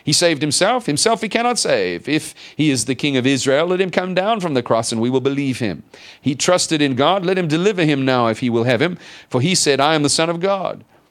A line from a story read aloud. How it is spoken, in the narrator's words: the chief priests, also mocking with the scribes and elders, said